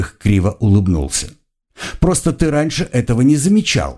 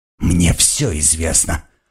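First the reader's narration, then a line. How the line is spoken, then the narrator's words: Hissing. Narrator (Russian): прошипел Генрих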